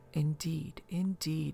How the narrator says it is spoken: murmured Lafitte

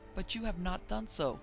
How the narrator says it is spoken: exclaimed Paul

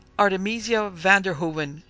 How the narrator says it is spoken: cried that young person in accents of wrath

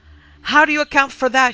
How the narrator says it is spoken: she cried

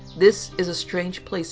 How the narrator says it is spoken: I said

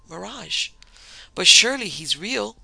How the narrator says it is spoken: Mademoiselle cried in her little bird's clear voice

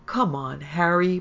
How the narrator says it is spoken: Bart groaned

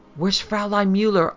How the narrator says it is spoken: I panted, striving to keep pace with him

